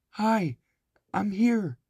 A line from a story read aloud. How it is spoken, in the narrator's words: Annie sputtered